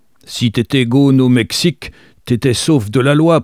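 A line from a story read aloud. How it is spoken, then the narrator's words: Very loud voice. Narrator (French): poursuivit-il d'une voix très forte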